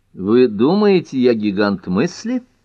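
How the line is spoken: Laughing. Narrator (Russian): засмеялся Кейн

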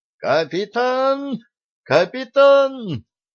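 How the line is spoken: Unnaturally thin shrill scream. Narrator (Russian): Федоров неестественно тонким голосом визгливо закричал

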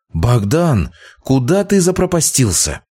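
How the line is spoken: Reproachful exclamation. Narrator (Russian): с укором воскликнула Варвара

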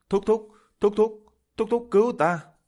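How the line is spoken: Crying out with joy. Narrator (Vietnamese): Quách Vĩ Hào, Đặng Đức Kiệt vui đến phát khóc kêu lên

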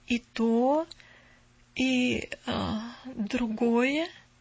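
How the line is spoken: Slow. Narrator (Russian): медленно проговорила она

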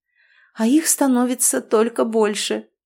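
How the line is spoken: Hysterical giggle. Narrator (Russian): истерично хихикнула

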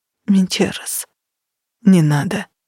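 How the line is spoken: Whispered. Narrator (Russian): прошептал он

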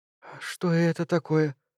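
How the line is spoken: Barely audible breathy female. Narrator (Russian): чуть слышно выдохнула она

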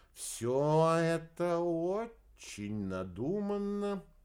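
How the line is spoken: Drawled. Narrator (Russian): протянул Квадриго

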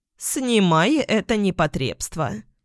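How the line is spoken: Creaky voice. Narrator (Russian): проскрипела она

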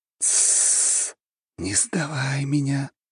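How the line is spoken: Whisper. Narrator (Russian): раздался его шепот

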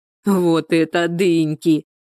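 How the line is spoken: Loud guffaw. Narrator (Russian): захохотал Валерка

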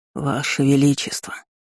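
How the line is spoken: Sleepy old man mumbling. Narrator (Russian): сонно пробормотал старик

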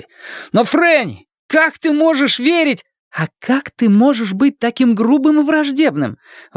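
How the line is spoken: Exclaiming. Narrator (Russian): воскликнула она

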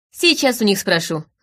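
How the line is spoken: Chuckling friend. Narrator (Russian): хохотнул приятель

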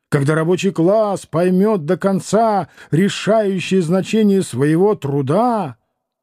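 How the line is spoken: Loud preaching. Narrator (Russian): Один из них громко проповедует

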